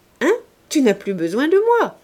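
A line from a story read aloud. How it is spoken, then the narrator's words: Cheerful whisper in ear. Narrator (French): dit gaiement monsieur de Plouguerne à l'oreille de Clorinde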